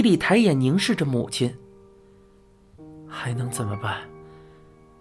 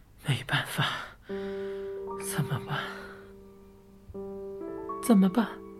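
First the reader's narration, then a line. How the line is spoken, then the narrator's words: Muttering. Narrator (Chinese): 他喃喃道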